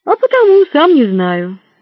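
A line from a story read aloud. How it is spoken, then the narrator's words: Sighing. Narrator (Russian): он вздохнул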